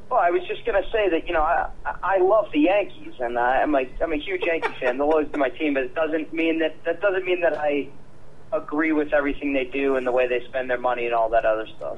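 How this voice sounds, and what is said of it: Heavy New York accent. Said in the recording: “he put on his heavy New York accent”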